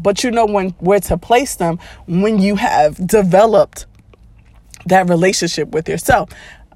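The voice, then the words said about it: Sick-sounding, strained voice. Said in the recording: “Excuse my voice. I am just recovering over a cold”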